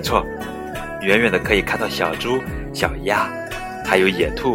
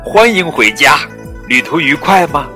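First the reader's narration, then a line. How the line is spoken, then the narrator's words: Loud. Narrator (Chinese): 弗洛格大声说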